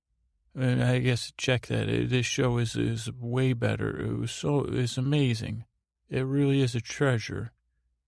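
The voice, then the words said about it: Detached, tired-sounding voice. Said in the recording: “as you can tell by my tone... you sound a little detached. You sound a little tired.”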